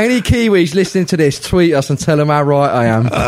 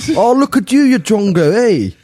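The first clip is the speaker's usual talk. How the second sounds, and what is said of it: Poor put-on Kiwi Maori accent. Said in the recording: “that's more Kiwi Maori accent ... Awful. That's awful.”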